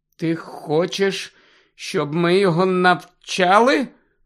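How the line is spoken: Hollow muffled voice. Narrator (Ukrainian): глухим голосом запитав Гаррі

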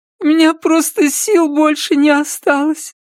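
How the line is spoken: Sobbing woman. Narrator (Russian): всхлипнула женщина

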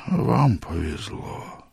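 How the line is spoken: Sad smiling old man. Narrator (Russian): грустно улыбнулся старик

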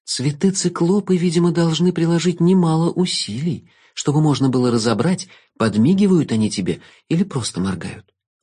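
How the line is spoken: Girl sighing. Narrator (Russian): вздохнула девочка

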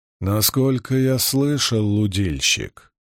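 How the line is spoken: Calm reply. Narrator (Russian): спокойно отвечал Илояс

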